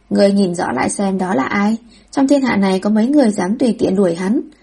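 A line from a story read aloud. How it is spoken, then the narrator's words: Bursting out laughing. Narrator (Vietnamese): Tạ Thù bật cười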